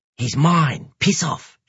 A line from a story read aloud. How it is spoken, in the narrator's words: snaps, in a distinctly lower-class cat scent